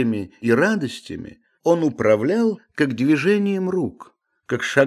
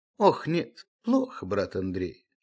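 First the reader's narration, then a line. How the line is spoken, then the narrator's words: Sighing. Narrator (Russian): вздохнув, сказал Обломов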